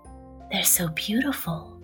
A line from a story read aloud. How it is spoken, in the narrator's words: whispered Mr